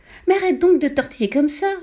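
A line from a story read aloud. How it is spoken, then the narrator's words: Wife yelping. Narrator (French): glapit sa femme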